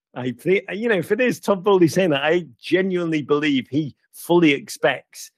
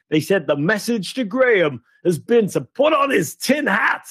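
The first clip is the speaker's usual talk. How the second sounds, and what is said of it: Poor put-on American accent. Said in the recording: “I don't know why I'm doing this in a crap American accent.”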